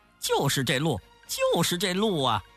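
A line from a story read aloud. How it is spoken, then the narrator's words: Laughing. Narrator (Chinese): 悟空笑着说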